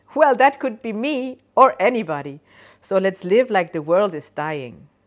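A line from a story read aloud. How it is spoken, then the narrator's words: Cheerful laughing voice. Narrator (German): Die Stimme lacht fröhlich und sagt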